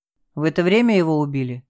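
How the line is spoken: Sighing again. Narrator (Russian): Сухов опять вздохнул

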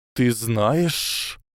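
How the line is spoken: Stunned hiss. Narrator (Russian): ошеломленно прошипел Гарри

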